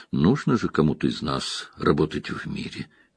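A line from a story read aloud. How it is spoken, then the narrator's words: Gentle. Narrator (Russian): мягко сказала Морейн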